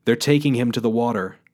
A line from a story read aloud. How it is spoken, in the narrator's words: he shouted to the crowd